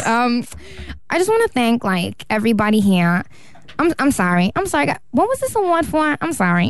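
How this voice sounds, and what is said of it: Imitates another person's voice. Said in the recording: “Nicki Minaj speaking ... impersonation”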